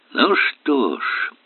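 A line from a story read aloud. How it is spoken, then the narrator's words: Deep sigh. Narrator (Russian): Эллери глубоко вздохнул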